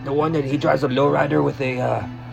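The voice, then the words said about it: Put-on Mexican accent. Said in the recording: “You kind of said that with a Mexican accent. ... the Vato voice”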